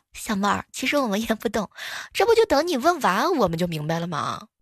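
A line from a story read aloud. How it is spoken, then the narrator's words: Laughing colleague. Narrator (Chinese): 邻桌的一个同事笑了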